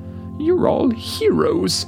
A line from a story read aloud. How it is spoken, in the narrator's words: exclaimed